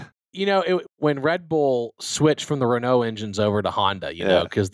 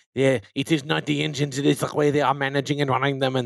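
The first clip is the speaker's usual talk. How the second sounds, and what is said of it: Fake French accent. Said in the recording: “my fake terrible French accent.”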